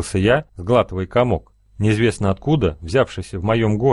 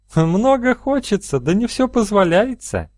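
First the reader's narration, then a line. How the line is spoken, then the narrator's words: Laughing. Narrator (Russian): рассмеялась она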